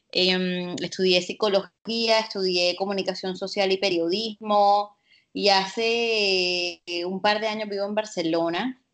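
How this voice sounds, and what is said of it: Caribbean Colombian Spanish accent. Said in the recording (Spanish): “nacida y criada en la costa caribe colombiana, creo que lo pueden deducir por mi acento.”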